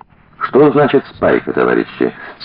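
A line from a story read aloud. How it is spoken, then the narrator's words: Quiet question. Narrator (Russian): спросил негромко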